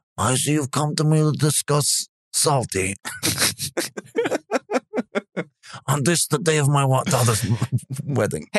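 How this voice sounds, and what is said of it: Gravelly mobster Godfather-style voice. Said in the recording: “do a different voice ... do a Godfather voice”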